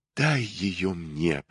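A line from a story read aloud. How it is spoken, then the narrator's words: Whisper. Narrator (Russian): прошептал он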